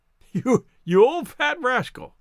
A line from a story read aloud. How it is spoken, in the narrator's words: he chuckled